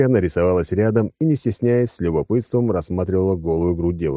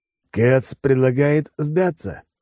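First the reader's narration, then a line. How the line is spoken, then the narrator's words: Snorting. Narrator (Russian): хмыкнул Алекс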